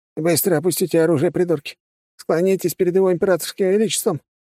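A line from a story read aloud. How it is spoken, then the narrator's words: Shrieking. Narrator (Russian): Натурально завизжал он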